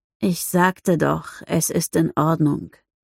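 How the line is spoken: Tired sighing reply. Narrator (German): erwiderte mit einem müden Seufzer

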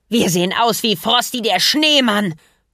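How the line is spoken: Shriek. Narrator (German): kreischte

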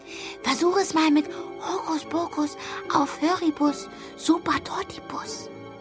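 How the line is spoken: Whispering in ear. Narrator (German): flüsterte ich ihr ins Ohr

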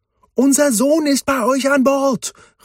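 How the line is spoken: Calling out. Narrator (German): rief Meridian

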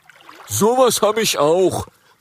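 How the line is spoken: Dragon calling out. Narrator (German): ruft ein Rüsseldrache

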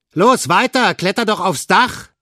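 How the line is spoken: Calling out. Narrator (German): rief Olaf

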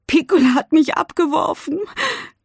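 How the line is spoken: Sobbing. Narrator (German): schluchzt sie

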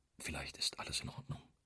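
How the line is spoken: Whispered. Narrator (German): flüstert Scott

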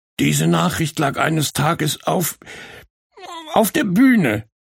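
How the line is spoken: Sobbing. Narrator (German): schluchzte Borke

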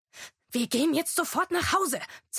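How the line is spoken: Hissed. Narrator (German): zischte Agatha

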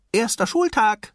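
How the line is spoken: Called out to father. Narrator (German): rief er seinem Vater zu

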